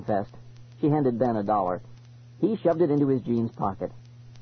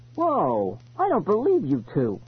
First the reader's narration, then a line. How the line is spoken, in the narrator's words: I exclaimed